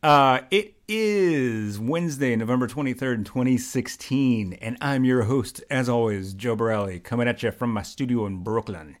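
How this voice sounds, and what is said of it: Put-on radio announcer voice. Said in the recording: “that's my best radio voice.”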